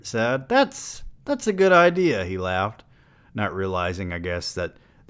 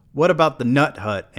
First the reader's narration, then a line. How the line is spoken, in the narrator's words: Amy said